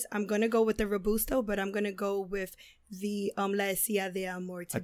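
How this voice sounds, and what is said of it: Hoarse voice recovering from laryngitis. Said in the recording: “I am still getting over my laryngitis.”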